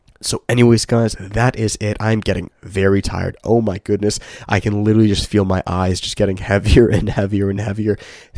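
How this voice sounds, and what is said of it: Slightly raspy voice. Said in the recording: “my voice was a little raspy.”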